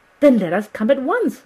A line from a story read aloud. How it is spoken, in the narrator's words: I cried